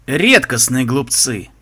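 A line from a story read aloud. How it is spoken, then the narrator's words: Scoffing. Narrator (Russian): хмыкнул Альберт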